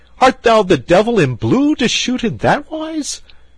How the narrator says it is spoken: cried Gilbert

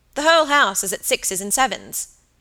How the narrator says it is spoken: he said crossly

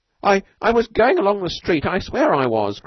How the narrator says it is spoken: cried Tulk

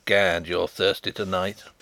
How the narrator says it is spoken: chuckled Sapt

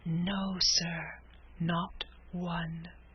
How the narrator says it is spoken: whispered the waiter, putting his mouth nearly close to the warden's ear

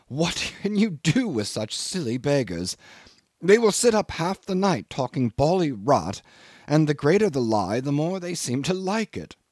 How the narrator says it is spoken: exclaim with an exasperated little laugh

